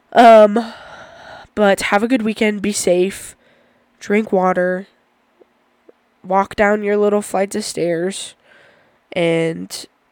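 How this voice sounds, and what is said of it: Sick, deeper than usual voice. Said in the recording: “Sorry for being sick, I sound terrible. ... Sorry for having a deeper episode, I really did not expect my body to start talking like that.”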